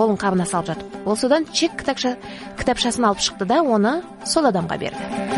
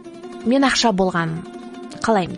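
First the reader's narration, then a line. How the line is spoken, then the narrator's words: Plain. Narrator (Kazakh): деді әлгі адам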